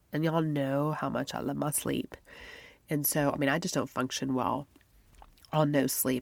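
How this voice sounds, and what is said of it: Stuffy, congested voice. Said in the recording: “I sound kind of stuffy,... allergy-ish”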